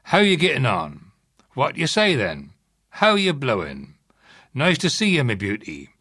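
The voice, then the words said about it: Strong regional English accent. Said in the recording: “I must apologise for my own accent.”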